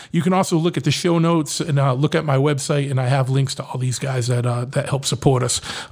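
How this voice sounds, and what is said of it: Boston accent. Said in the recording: “I know I got a Boston accent”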